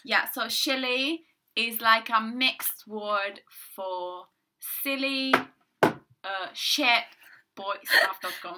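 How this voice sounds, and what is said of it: Italian accent. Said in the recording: “if you hear an Italian accent, you know you have”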